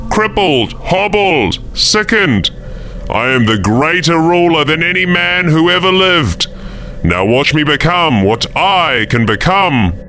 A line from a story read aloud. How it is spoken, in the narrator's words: bellowed